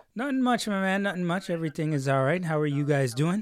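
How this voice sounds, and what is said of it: Put-on Jamaican-style accent. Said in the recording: “I love the accent, yeah ... Switch up a little bit a while ago, man. ... It seems like he's practicing for ... Jamaica.”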